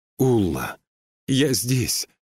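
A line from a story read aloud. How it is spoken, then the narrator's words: Cry of recognition. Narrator (Russian): вскрикнула она, узнавая голос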